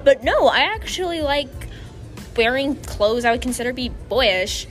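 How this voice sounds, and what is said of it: Stereotypical popular girl voice. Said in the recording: “That sounded like a popular girl voice.”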